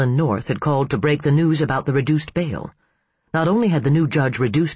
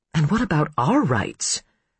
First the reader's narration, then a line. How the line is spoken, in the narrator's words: Hannah murmured